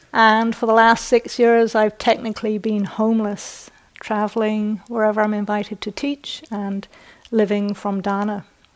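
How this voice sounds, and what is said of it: British accent, not upper class. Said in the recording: “my British accent is not upper class”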